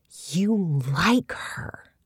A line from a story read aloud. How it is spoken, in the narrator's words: Jessica whispers